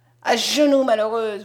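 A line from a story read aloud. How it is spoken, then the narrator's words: Yelled angrily. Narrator (French): vociféra-t-il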